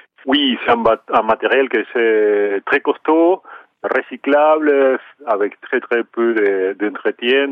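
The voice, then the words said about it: Charming Argentine accent in French. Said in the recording (French): “votre accent charmant que vous venez d'un ailleurs, en particulier de l'Argentine”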